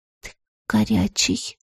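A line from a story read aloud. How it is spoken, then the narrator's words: Quietly spoken. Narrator (Russian): тихо проговорила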